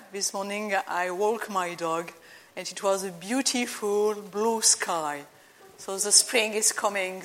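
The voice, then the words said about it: French accent. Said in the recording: “you might hear perhaps some accent. So I am French.”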